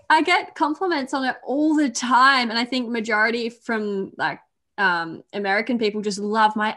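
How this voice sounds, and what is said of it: Accent like British or New Zealand. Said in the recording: “I've been mistaken for British or New Zealand because I think for some reason we sound similar... I don't like my accent”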